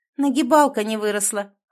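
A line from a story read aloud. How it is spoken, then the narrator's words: Smirking, suppressing panic. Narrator (Russian): хмыкнула Северская, подавив волну паники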